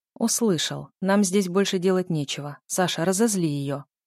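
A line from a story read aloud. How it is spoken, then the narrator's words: Icy request. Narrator (Russian): ледяным тоном попросил государь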